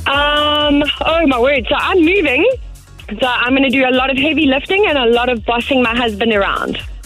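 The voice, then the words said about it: South African accent. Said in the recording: “I love your accent as well. Where's the accent from? ... Oh, I'm from South Africa.”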